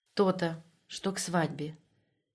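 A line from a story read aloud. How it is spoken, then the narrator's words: Whispered, head bowed low. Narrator (Russian): Еще ниже, опустив голову, прошептала Татьяна Герасимовна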